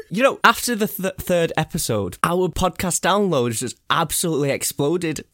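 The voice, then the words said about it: Congested, stuffy-nosed voice. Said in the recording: “I've had a cold all week. I don't know if you could tell through the microphone, but... Oh, I've just sniffled... If my voice is a bit different on the recorded, that's why. Because my nose...”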